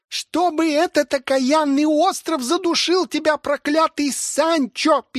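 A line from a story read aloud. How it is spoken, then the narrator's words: Niece squeaking. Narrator (Russian): пищала племянница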